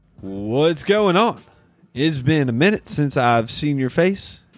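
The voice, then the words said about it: Speaks in a put-on accent. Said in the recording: “I do not have a new accent. I don't know why I'm talking like this”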